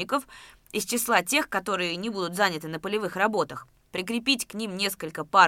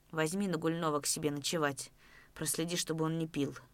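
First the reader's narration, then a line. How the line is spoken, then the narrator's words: Whisper. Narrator (Russian): шепнул Давыдов Разметнову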